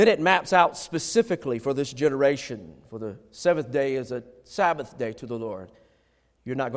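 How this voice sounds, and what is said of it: Usual voice. Nothing is said of it.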